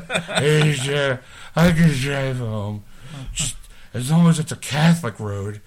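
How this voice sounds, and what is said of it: Imitates a drunk person's voice. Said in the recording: “Worst Mel Gibson impression ever ... probably the best drunk impersonation”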